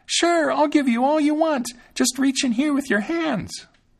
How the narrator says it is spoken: Thumbling screamed as loud as he could

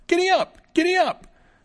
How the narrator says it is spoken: the little fellow cried out

